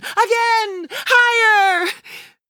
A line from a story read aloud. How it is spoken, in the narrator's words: we shout out in unison